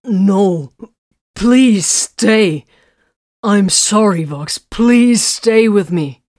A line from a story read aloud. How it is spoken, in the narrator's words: The despair almost choked his words when he cried